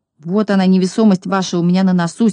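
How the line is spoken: Angry reply. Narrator (Russian): сердито ответил Пончик

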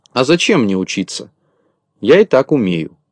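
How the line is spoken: Plain. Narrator (Russian): ответил Незнайка

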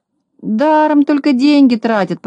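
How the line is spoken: Grumbling. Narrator (Russian): проворчал Незнайка

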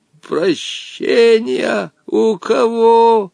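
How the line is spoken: Surprised hoarse old man. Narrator (Russian): Удивленно прохрипел старец Женя

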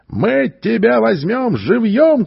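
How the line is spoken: Shouting. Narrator (Russian): кричали они

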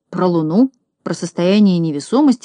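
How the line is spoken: Bewildered repetition. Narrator (Russian): растерянно повторял Знайка

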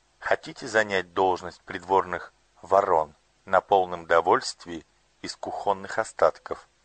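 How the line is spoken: Plain. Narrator (Russian): спросила принцесса

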